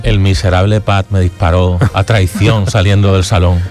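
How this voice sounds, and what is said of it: Deep voice from beyond the grave. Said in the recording (Spanish): “esa voz de ultratumba”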